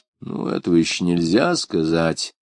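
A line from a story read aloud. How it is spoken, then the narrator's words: Grumble. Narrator (Russian): проворчал Хаттер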